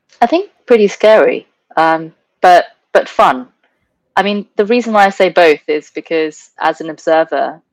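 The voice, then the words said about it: Non-American accent. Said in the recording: “as a non-American, obviously by your accent”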